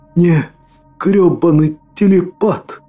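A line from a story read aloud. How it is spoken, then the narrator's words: Strained, gurgling with blood. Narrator (Russian): Сбулькивая кровью, сумел выдавить я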